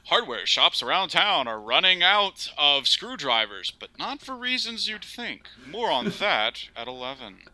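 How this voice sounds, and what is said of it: Local TV newscaster voice. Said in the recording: “extremely, extremely local newscaster voice”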